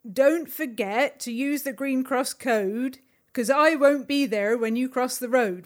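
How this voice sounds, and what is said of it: Bad impression with rural English accent. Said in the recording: “judging by the accent, something to do with hobbits ... a very bad impression of Dave Prowse doing the Kring Cross Code Man”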